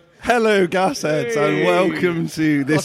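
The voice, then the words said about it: Overly loud, shouted intro. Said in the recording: “That's way too loud. Let's turn this volume down.”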